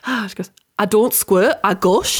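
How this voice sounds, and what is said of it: Put-on Geordie accent. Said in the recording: “I've discovered my one for Geordie, which is really difficult. Is it a hard accent for us southerners to do?”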